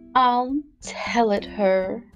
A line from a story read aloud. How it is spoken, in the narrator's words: said the Mock Turtle, in a deep, hollow tone